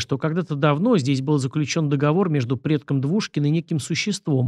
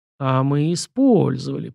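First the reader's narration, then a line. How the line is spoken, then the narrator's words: Drawling. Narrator (Russian): протянул Шуйский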